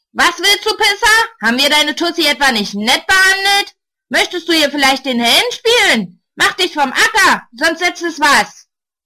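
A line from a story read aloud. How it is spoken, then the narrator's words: Roar. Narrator (German): Einer brüllt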